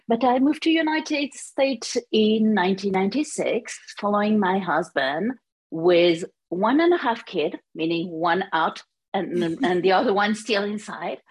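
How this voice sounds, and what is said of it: French accent. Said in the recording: “As you can hear, my accent is French.”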